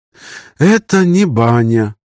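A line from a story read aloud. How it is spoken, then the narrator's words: Upset sighing remark. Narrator (Russian): расстроенно вздохнув, прокомментировала Лина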